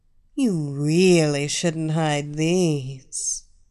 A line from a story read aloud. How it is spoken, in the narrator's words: the blonde chuckled